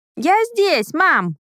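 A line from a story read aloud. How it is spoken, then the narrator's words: Cheerful shout. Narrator (Russian): крикнула она бодро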